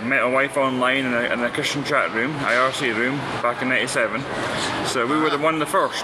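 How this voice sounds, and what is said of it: Scottish accent. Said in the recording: “your accent's interesting ... I'm from Scotland”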